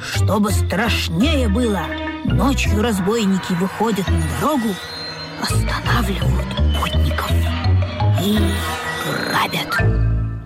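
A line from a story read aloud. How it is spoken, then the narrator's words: Ominous whisper. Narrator (Russian): зловещим шепотом предупредил Бобик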